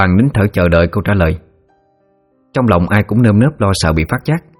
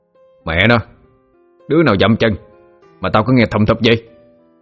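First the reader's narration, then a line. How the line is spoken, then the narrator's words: Loud harsh shout. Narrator (Vietnamese): gằn giọng quát lớn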